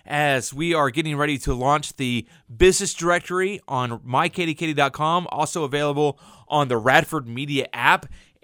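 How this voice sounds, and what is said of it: Excited, pumped-up voice. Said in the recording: “I'm so pumped up and excited, if you can't tell by my voice”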